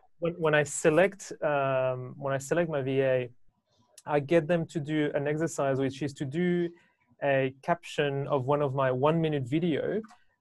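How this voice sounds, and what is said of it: Non-native English accent. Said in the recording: “understand my accent”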